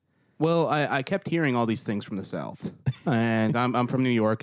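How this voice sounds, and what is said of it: New York accent, fast speech. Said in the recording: “I talk like a New Yorker ... if you don't have as much of the accent, you have the speed”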